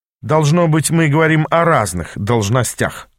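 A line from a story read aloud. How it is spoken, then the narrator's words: Snapping retort. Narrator (Russian): огрызнулся я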